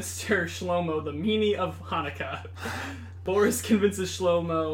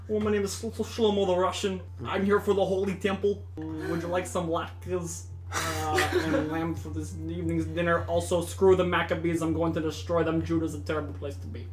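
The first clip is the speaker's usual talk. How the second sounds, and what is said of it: Put-on Russian accent. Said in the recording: “you've already done two accents, so you might as well do the even three. Can I get a little piece of Shlomo the Russian? ... Shlomo what sounds like a different character”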